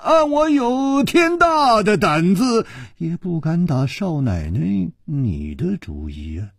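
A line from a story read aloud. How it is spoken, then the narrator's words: Sighing. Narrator (Chinese): 楚留香叹了一口气说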